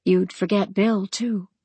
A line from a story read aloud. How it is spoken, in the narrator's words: Practical Sensible whispered almost apologetically